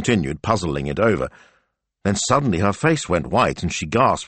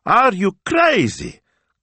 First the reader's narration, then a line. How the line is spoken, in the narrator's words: cried Smilzo, indignant